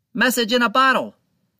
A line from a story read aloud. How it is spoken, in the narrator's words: the man shouted